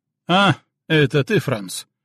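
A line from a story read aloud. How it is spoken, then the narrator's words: Snort. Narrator (Russian): он хмыкнул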